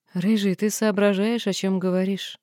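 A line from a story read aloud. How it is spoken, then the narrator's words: Calm question after laughter. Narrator (Russian): Смеялась долго, затем, вытирая слезы, спокойно спросила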